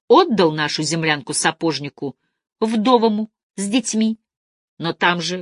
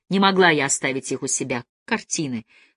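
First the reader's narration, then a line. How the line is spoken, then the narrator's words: Very quiet reply. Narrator (Russian): совсем тихо ответила Анна Николаевна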